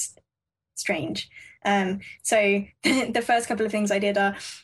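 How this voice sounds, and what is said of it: Usual voice. Nothing is said of it.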